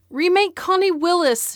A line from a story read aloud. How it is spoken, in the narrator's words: shouted